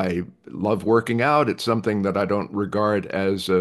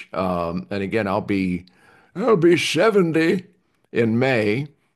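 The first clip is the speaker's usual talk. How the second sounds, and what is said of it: Dick Van Dyke old man voice. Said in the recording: “my Dick Van Dyke old man voice”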